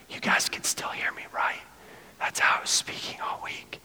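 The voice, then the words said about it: Whispering. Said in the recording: “my voice just went out ... We'll whisper.”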